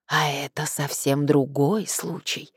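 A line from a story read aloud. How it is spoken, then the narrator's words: Whispering. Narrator (Russian): зашептал Гелий Радиевич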